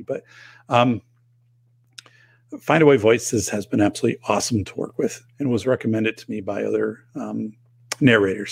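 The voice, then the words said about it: Strained, hoarse voice. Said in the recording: “I don't know why I'm losing my voice. I shouldn't. It's humidity.”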